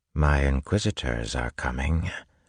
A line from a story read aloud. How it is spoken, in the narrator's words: Ruin whispered